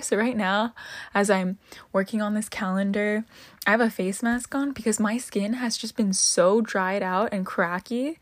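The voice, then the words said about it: Flat, dead-sounding tired voice. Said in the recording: “My voice sounds so dead right now.”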